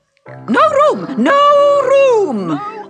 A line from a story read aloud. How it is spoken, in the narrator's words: they cried when they saw Alice coming